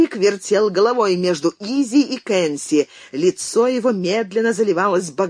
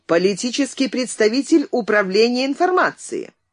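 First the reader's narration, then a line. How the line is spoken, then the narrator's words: Indignant announcement. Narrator (Russian): Цвирик еще более негодующим тоном объявил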